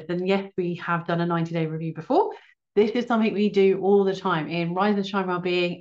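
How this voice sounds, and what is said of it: Excited, energetic voice. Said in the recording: “You can probably tell by my voice, I'm so excited with this.”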